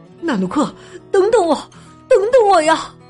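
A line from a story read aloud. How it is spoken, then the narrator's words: Silent inner calling. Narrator (Chinese): 基努 脑子里不停的喊着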